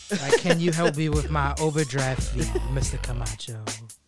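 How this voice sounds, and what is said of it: Sultry, flirtatious put-on voice. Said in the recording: “They hit me with a sexy voice.”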